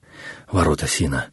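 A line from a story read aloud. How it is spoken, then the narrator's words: Muttering to himself. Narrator (Russian): под нос себе пробормотал Наму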